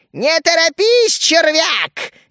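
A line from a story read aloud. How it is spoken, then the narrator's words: Cheerful creature's shout. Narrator (Russian): весело выкрикнула вторая тварь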